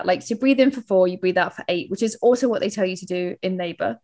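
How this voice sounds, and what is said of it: London accent. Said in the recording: “That's my London accent.”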